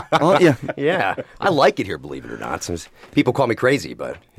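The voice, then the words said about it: Silky radio voice, not Black Country. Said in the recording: “how silky is that radio voice? ... it is probably the most least black country accent that we've ever had”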